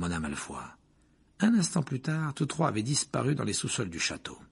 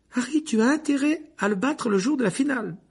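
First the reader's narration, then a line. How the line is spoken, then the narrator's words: Shrill call. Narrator (French): lança Hermione d'une voix perçante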